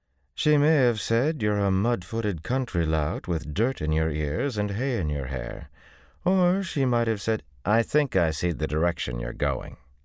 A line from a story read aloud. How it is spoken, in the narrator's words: he told her through gritted teeth